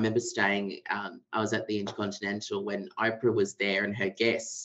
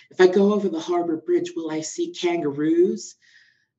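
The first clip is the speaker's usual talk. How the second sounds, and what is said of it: Poorly put-on American accent. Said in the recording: “this is a really bad accent, this is why I'm a lawyer and not an acting”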